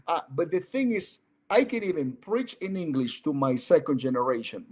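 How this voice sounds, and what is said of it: Speaks English with an accent. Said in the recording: “I speak English. ... I speak with an accent.”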